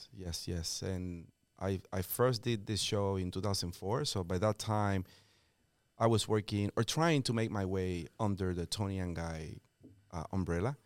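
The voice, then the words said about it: Puerto Rican accent. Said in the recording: “I have an accent, and that's because I am born and raised in Puerto Rico.”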